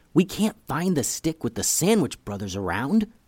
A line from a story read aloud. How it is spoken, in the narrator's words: whispered Eli